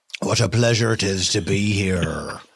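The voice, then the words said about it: Good put-on Irish accent. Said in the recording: “Simultaneously a good Irish accent and not really sounding like Bono.”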